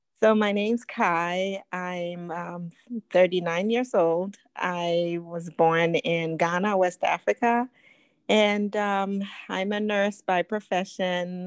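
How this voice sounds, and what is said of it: Non-American accent. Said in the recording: “your accent that you're not naturally from America, but your accent is so beautiful”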